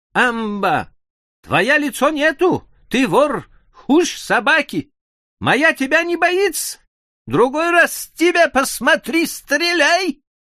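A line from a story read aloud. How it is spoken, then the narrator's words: Shouting into the distance. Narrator (Russian): Дерсу повернулся в ту сторону, куда ушел тигр, и закричал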